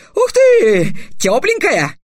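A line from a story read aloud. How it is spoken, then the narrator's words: Joyful yell. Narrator (Russian): радостно завопил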